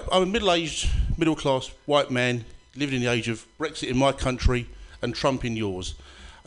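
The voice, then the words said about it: Foreign accent, unfamiliar to audience. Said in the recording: “If you've got problems with the accent”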